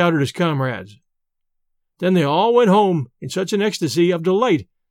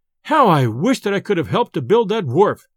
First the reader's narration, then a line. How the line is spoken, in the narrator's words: exclaimed he